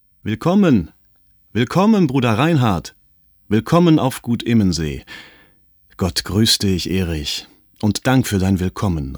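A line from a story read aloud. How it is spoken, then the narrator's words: Calling out in greeting. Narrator (German): rief der andere entgegen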